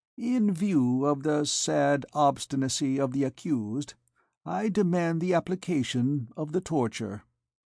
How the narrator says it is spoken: Master Jacques Charmelou interposed sweetly

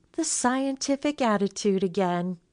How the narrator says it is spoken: Betty sighed

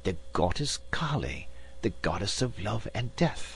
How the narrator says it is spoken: Sir Francis, recognizing the statue, whispered

